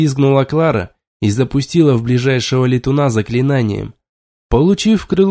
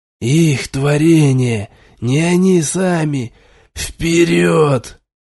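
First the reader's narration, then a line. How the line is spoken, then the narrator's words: Hoarse growl. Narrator (Russian): хрипло прорычал я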